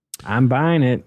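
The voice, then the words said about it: Put-on Southern accent. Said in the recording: “Why am I speaking in a southern accent”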